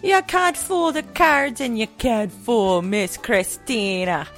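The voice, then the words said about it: Put-on Jamaican accent. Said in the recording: “I'm obviously Jamaican. ... It's a flawless accent from Jamaica.”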